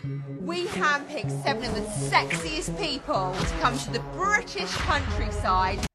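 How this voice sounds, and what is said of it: British accent. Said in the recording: “I'm also obsessed with this because of the accent ... I am deep into my British world”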